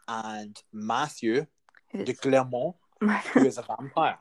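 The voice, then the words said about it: Put-on French accent. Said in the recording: “nice French accent there.”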